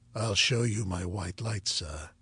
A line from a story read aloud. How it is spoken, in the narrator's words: he said in his peculiar low voice